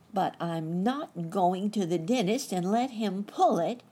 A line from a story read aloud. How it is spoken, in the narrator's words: cried the boy, holding his hand over his mouth